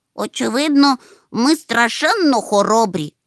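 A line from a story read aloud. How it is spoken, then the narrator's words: Exclaimed. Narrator (Ukrainian): вигукнув Чмих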